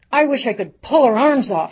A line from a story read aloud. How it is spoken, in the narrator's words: she screamed